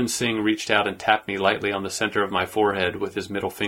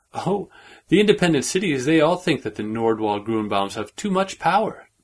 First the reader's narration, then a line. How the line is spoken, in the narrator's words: he laughed